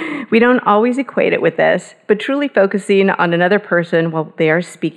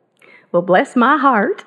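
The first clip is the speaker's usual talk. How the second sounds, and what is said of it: Put-on Southern accent. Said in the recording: “that does require a southern accent, by the way. So you have to do it that way.”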